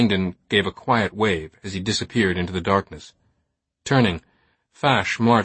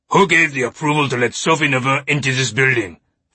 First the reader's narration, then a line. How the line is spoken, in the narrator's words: Fash bellowed